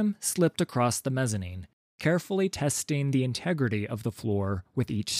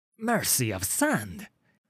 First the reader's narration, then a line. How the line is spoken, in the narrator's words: he hissed